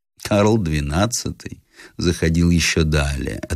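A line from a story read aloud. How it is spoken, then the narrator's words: Calm reply, general. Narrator (Russian): отвечал спокойно русский генерал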